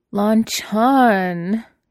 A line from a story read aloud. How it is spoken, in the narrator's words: he wailed